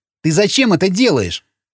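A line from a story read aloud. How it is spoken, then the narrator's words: Snorting. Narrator (Russian): фыркнул Сквернослов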